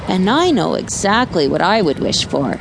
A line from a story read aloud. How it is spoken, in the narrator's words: snorted Barnacle